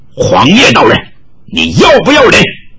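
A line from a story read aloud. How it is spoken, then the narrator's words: Shrill shriek. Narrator (Chinese): 玉罗刹尖叫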